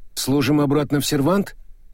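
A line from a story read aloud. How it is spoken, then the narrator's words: Uncertain suggestion. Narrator (Russian): предложил мокрец неуверенно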